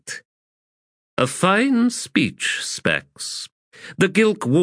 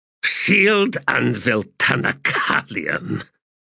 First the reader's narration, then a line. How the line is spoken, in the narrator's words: he said, adding a disgusted grunt